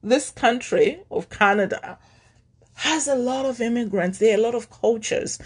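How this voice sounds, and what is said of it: Non-Canadian foreign accent. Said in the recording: “I know a Canadian, how a Canadian sounds. You don't sound like that ... I know I have an accent.”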